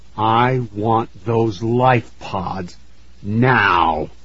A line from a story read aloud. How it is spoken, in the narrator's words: he said through clenched teeth